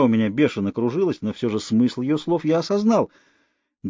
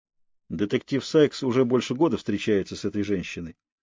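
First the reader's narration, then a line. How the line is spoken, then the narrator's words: Quiet. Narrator (Russian): тихо сообщил мне он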